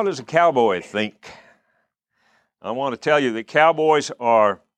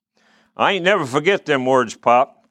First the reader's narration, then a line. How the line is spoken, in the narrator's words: Quirt said